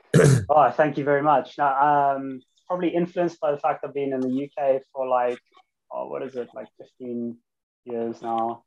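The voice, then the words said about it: South African accent. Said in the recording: “What accent's that? Because it's a really nice accent. ... South African from Cape Town.”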